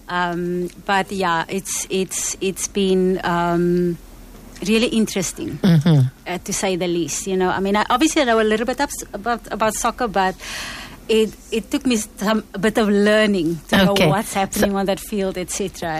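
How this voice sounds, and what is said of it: Slight South African accent. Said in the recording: “I detected a little bit of an accent there.”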